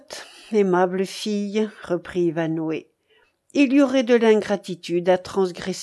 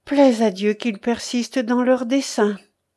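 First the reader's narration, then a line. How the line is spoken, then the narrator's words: Crying out. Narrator (French): s'écria Ivanhoé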